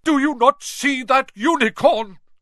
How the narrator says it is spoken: Firenze bellowed at Bane

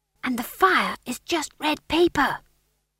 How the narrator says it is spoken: whispered Magrat

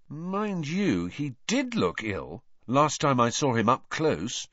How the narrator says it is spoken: said Harry slowly

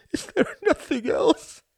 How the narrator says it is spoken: sobbed

